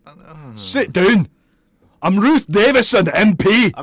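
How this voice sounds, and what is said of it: Weak attempt at Scottish accent. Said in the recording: “I can't do a Scottish accent.”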